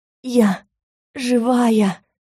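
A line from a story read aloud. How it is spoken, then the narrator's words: Wheezing again. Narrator (Russian): снова просипела я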